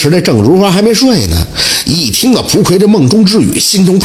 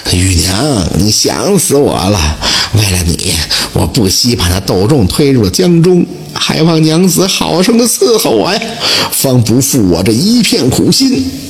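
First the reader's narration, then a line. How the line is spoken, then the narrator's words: Murmuring. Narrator (Chinese): 蒲奎嘴里喃喃地说道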